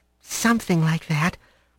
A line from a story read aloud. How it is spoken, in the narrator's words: she mumbled